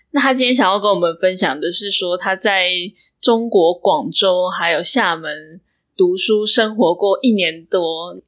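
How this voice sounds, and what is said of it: Taiwanese Mandarin accent. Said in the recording (Chinese): “我本身是台湾口音、台湾腔”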